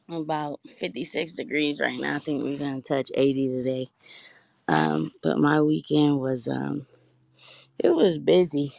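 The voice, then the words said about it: Groggy, just-woke-up voice. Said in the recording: “As y'all can hear, my voice is still waking up.”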